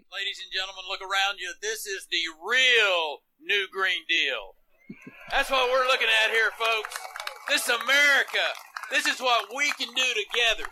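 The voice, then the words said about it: Texas accent, possibly exaggerated. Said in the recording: “fake Texas accent”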